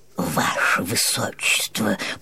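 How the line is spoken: Whispered in ear, senior chamberlain. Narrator (Russian): прошептал на ухо принцу старший камергер

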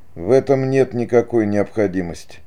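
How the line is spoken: Dry, stranger. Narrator (Russian): сухо сказал незнакомец

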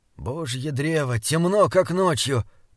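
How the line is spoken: Groaning. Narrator (Russian): простонал Диарнот

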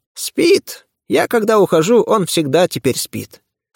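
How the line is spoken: Calm reply. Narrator (Russian): спокойно ответила Макаровна

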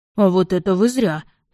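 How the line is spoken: Deep bass voice. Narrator (Russian): пробасил слуга Этьена

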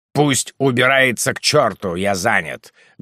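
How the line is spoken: Rude reply. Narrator (Russian): грубо ответил Ругон

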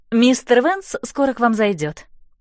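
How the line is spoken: Cheerful. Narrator (Russian): весело говорит она

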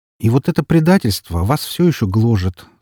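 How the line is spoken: Plain. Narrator (Russian): сказал я ей

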